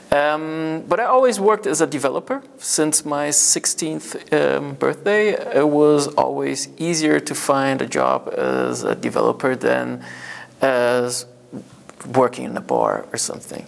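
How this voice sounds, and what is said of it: Mixed English-American accent. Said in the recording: “I have a bit of more an English American accent instead of an English accent.”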